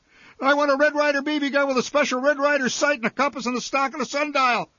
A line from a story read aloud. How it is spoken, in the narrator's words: I shouted